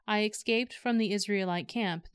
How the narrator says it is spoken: the man replied

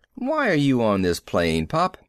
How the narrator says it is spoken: I asked sharply

